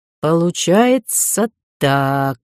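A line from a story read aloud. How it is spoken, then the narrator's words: Thoughtful drawl. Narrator (Russian): задумчиво протянул Кай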